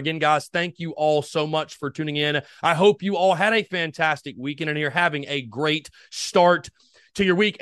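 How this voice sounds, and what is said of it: Energetic, loud podcast voice. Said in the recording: “it feels good to be talking to you all in my normal tone ... We're back to the normal, energetic, loud podcast voice”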